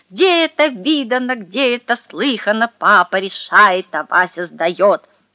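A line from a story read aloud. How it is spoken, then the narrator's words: Furious yelling. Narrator (Russian): заорал со страшной злостью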